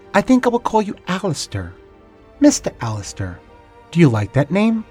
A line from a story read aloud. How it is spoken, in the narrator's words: she said in a melodic voice